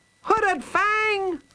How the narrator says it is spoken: she called out

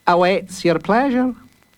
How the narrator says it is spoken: said Master Fish cheerfully

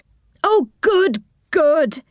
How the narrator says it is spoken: he cried

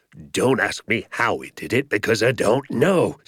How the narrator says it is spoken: shouted Mr

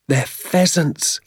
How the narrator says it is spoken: I cried

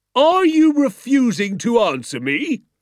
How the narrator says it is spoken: shouted

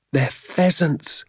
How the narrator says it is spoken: I cried

